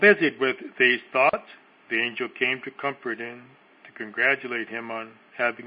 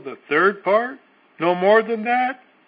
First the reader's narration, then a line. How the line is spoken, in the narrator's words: exclaimed the suffering soul